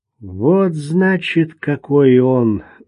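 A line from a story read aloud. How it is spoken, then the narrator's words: Barely audible exclamation. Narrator (Russian): вырвалось у него едва слышно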